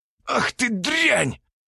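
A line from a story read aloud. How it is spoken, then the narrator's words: Hiss. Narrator (Russian): прошипел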